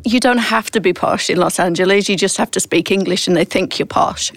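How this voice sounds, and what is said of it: British accent, not posh. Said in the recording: “I can't be your friend if you say I sound Australian ... I need to keep the British ... I don't do posh at all, really, do I, with this accent?”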